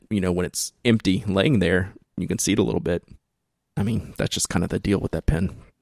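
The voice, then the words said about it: Worn-out, strained voice. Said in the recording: “my voice is shot”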